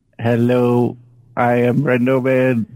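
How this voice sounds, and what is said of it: Slightly odd mock robot voice. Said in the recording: “do a robot voice ... it sounds like your normal voice, just a little weirder ... that weird voice”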